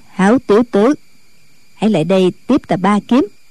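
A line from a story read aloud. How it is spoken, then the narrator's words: Cold old nun. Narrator (Vietnamese): Diệt Tuyệt sư thái lạnh lùng nói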